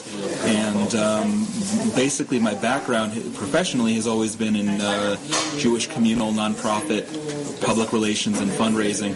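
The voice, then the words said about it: American accent. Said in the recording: “as you hear from my accent, I'm American born.”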